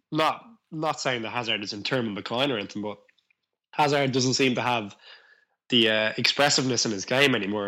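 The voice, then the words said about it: Irish accent. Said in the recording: “your voice got more Irish as you spoke about it”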